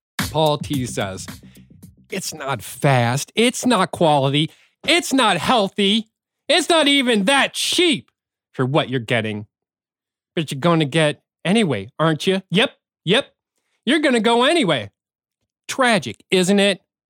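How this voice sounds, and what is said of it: Reads in a funny voice. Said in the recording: “read a bad review of our favorite taco place of the week in a funny voice ... bad reviews in a funny voice”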